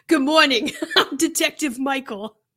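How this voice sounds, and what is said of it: Poorly attempted put-on accent. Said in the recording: “I'm trying to do an accent. It is not going to go well.”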